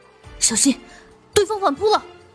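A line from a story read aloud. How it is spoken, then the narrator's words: Urgent shout into microphone. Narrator (Chinese): 我瞬间皱眉，对着面前的话筒喊道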